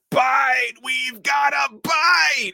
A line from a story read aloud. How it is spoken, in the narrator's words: An army lady screams